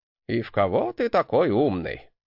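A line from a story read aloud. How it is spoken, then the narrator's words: Grumbling. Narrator (Russian): проворчал мой наставник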